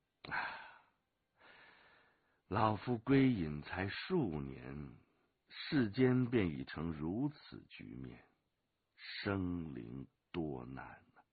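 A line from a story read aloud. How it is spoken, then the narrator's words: Sighing. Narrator (Chinese): 归隐子叹道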